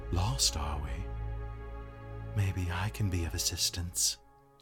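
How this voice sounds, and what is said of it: Soft-spoken character voice. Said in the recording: “In a soft voice”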